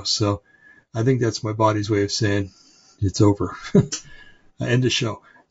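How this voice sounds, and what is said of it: Tired, dry, fading voice. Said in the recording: “I'm tired. My voice is, my mouth is dry. My throat is, my voice is starting to go.”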